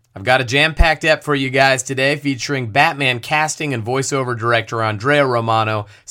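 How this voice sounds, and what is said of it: Raspy, strained voice. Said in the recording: “my voice, which is raspy because I blew it out shouting”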